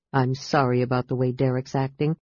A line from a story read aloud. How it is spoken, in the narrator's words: he said in a low voice